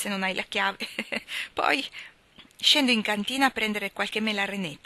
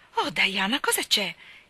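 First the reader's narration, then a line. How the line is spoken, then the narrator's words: Exclaimed. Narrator (Italian): esclamò Anna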